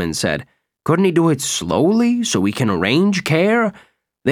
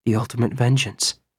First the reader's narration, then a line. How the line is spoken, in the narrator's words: Nick murmured